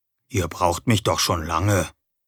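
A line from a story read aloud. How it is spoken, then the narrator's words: Quiet answer. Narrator (German): antwortete ich leise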